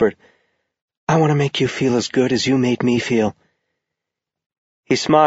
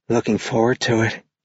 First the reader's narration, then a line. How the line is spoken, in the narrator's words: she said in a hazy murmur